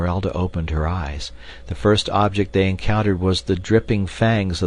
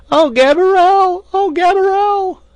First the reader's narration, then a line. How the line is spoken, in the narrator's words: at the top of her lungs